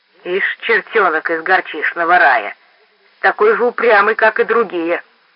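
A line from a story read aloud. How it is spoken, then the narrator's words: Furious growl. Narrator (Russian): прорычал в конец обозленный Хомер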